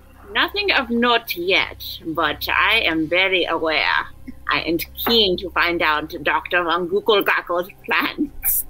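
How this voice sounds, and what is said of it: Put-on character accent. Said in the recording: “I love this accent.”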